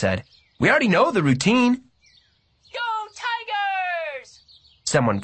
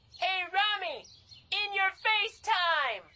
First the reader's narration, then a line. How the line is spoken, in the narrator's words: The shout came from a red-haired girl with her hands cupped around her mouth